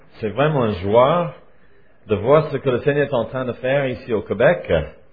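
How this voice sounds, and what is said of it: Swiss French accent. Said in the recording (French): “Ils disent que moi j'ai un accent, parce que je viens de la Suisse ... nos accents suisses ... mon accent”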